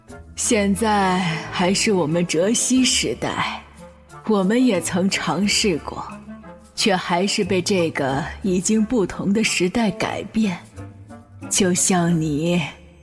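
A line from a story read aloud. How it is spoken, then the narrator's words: Old woman sighing. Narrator (Chinese): 老太太却叹道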